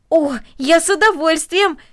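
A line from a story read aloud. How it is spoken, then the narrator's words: Exclaiming. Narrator (Russian): воскликнул Дино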